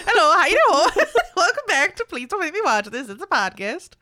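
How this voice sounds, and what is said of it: Put-on, unplaceable accent. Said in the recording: “That's an accent of no one. ... That's just what she sounds like now.”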